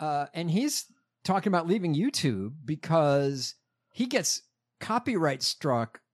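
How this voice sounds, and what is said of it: Usual voice. Nothing is said of it.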